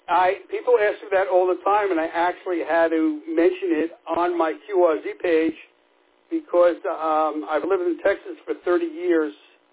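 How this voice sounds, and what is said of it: New York area accent. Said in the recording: “have still kept your accent. Were you originally from New Jersey or New York area?”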